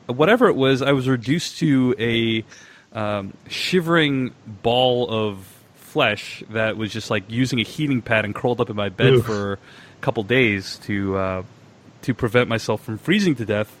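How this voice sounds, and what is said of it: Sick, rough, low-energy voice. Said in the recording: “my voice is in pretty bad shape today. I'm recovering from a pretty bad version of, I think it's the flu? ... if my voice sounds a little odd, that's if I'm not my usual enthusiastic self ... that's why I sound a little different today”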